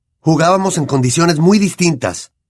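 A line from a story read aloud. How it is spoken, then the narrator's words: Shouted. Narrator (Spanish): gritó Wood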